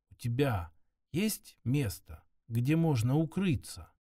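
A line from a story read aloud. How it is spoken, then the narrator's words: Near-whispered question. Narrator (Russian): почти шепотом, чтобы переводчик подхватил слова и сделал их понятными, она спросила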